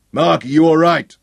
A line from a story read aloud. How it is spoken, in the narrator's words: general's bull bellow carried across the road